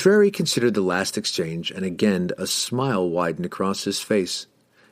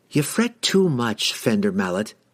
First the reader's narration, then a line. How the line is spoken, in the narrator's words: Catterbury said, laughing